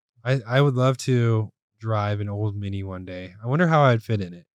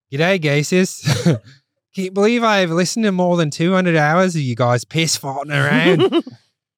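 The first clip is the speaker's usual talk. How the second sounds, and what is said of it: Put-on Australian accent. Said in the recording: “You got to read it in the accent. ... This is Australian.”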